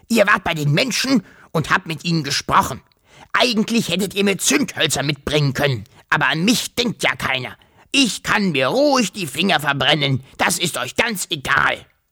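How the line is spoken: Grunting. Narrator (German): grunzte er

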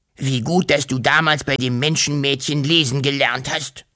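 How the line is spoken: Happy hiss. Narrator (German): fauchte glücklich

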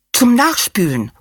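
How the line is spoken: Calling out. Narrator (German): ruft sie

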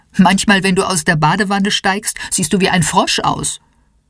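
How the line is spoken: Laughing mother. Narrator (German): lacht Mama

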